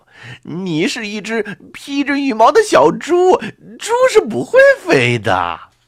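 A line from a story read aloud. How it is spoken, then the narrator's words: Laughing loudly. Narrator (Chinese): 猴子大笑着说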